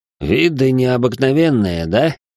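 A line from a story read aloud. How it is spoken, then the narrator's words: Smirking, lazy. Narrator (Russian): Хмыкнул он и лениво продолжил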